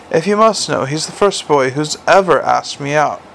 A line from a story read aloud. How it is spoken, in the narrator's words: she added sadly